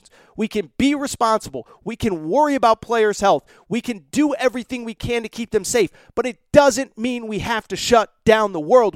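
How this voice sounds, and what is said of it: Yelling, fired-up delivery. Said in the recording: “I'm sorry that I'm yelling, but I'm so fired up”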